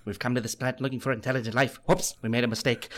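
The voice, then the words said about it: Imitates another person's voice. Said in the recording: “some of the other voices you do. You mentioned Robin Williams. Why don't you give us a little bit of him?”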